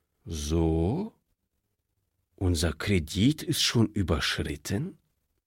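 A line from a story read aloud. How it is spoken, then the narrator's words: Calm question. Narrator (German): fragte der Direktor, und er wunderte sich selbst, wie ruhig er die Frage stellen konnte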